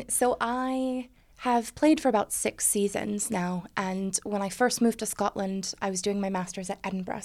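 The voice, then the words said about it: American accent. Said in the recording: “the bad accent, I am actually American”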